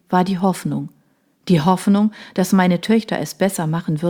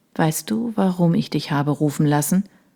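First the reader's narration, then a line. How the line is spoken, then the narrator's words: Quiet question. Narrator (German): fragte er leise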